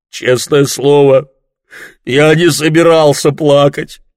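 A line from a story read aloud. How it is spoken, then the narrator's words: Sobbing with heavy sighs. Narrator (Russian): всхлипывал он, вздыхая всей своей могучей грудью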